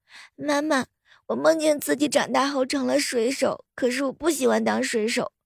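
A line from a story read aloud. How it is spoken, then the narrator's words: Frightened crying piglet. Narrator (Chinese): 小猪啊，从噩梦当中惊醒，哭着对妈妈说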